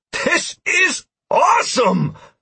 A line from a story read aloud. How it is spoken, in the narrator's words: I shouted